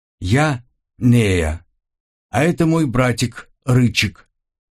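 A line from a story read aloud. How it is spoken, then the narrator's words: Girl's ringing little voice. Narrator (Russian): представилась девочка своим немного звенящим голоском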